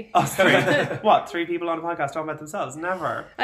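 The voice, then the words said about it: Clear, concise podcast voice. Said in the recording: “I love how you actually pronounce the H. ... doing my general podcast voice where I need to speak in a clear, concise tone.”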